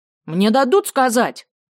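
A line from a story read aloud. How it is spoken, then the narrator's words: Yelling. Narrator (Russian): заорала Тамарка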